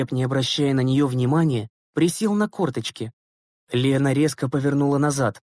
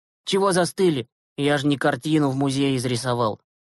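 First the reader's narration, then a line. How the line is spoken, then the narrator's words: Smirking grunt. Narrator (Russian): хмыкнул Глеб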